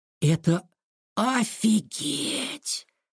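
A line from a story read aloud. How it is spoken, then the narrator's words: Whisper. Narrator (Russian): прошептал он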